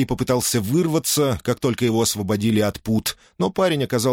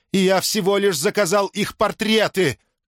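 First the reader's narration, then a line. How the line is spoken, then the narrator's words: Shouting. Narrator (Russian): кричал Орфей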